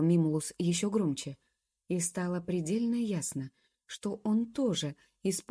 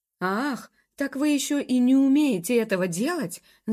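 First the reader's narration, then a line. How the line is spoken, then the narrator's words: Exasperated shout. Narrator (Russian): закричал мастер Хорас, схватившись за голову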